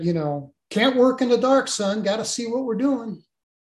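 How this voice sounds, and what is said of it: Southern US accent, Mississippi/Alabama. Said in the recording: “he had this Southern accent ... it was Mississippi, Alabama, maybe”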